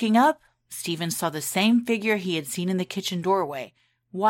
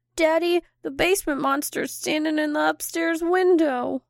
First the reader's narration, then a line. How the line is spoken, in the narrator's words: Matthew shakily say